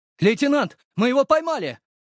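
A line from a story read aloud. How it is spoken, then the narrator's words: Full-throated yelling. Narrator (Russian): заорали во все горло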